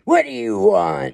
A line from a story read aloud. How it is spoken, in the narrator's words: he snarled